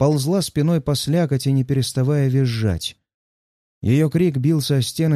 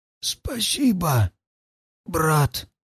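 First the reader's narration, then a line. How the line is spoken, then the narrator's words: Barely audible wheeze. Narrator (Russian): Едва слышно просипел Влас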